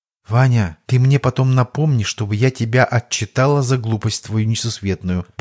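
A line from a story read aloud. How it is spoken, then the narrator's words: Quiet grand duchess. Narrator (Russian): тихо произнесла великая княгиня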